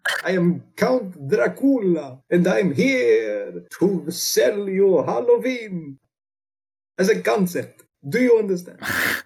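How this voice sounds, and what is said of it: Dracula character voice with Transylvanian accent. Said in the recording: “I'm from Transylvania... Don't think about my accent. It's strict and it never changes.”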